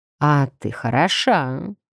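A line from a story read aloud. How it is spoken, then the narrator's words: Languid purr. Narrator (Russian): неожиданно томно мурлыкнул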